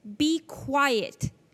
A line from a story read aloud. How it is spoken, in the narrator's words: Jesus said sternly